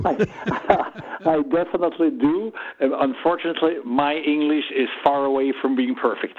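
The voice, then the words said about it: Swiss-accented English. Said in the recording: “You have a Swiss accent.”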